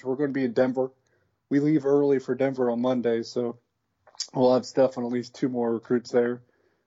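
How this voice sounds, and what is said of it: Strained, fading hoarse voice. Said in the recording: “I'm losing my voice, I think. ... I appreciate you finishing off your voice with me today.”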